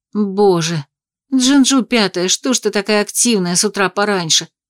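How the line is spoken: Groaning. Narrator (Russian): простонала я

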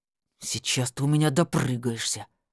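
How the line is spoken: Through gritted teeth. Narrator (Russian): сквозь зубы процедил Валера

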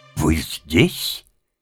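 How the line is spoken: Stern, threatening. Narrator (Russian): сказала она, грозно

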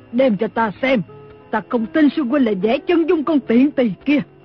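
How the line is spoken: Screaming. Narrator (Vietnamese): Lý Thu Thủy thét lên

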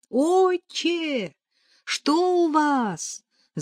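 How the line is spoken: Distant shout. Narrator (Russian): закричала Нелли издалека

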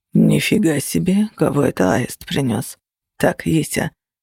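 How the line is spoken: Whispered call. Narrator (Russian): позвал шепот

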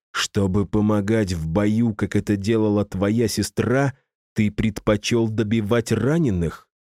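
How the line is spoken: Hissed. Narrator (Russian): зашипел я

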